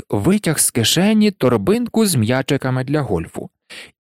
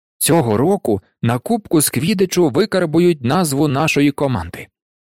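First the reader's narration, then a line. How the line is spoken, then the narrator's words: Joyful. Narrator (Ukrainian): радісно сказав Вуд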